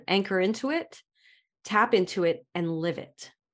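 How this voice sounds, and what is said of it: Brooklyn accent. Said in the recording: “this is my Brooklyn accent”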